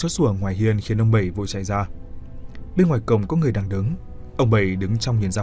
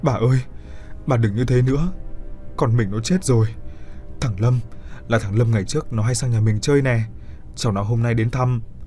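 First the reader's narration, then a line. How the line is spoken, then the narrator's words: Old man crying. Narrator (Vietnamese): Ông Bảy khóc lóc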